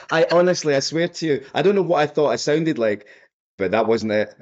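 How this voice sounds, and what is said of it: Scottish accent. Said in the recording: “I've got a Scottish accent”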